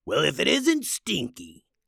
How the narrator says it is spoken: growled the other trolls

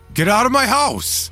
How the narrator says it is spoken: shouted

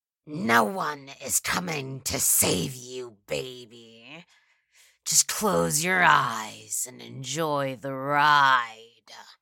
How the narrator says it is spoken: she shrieked

